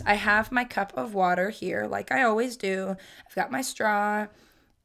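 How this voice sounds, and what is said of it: Voice sounds off. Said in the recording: “Apologize for my voice.”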